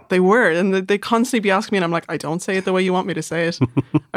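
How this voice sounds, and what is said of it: Slightly posh Irish accent. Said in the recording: “my accent is a little bit posh”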